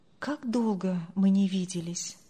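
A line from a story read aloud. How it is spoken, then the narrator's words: Sighing to himself. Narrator (Russian): вздохнул про себя Андрей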